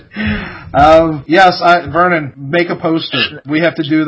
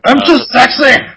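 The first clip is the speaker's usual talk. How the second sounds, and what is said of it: Bad put-on Scottish accent. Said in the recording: “Scotland... Terrible accent.”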